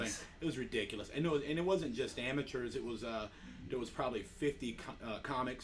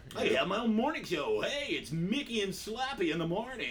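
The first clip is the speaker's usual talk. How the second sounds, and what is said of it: Mock morning radio DJ voice. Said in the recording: “I'll do a radio voice.”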